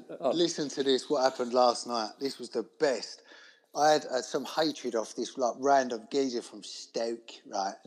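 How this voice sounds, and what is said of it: Cockney London accent. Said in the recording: “Your accent, is that like the most Cockney accent, your Bermondsey London”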